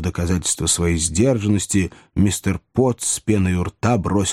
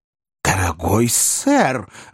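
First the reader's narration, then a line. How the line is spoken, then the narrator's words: Exclaiming. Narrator (Russian): воскликнул мистер Уинкль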